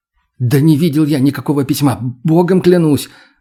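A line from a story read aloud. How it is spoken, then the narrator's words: Rapid gabbling. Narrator (Russian): затараторил я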